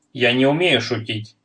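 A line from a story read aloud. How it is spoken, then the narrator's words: Sharp, then softened. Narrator (Russian): резко ответил Арнаутов и тут же смягчил тон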